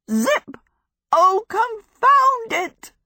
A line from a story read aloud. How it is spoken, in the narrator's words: Sophie cried, almost in Marsh Folding again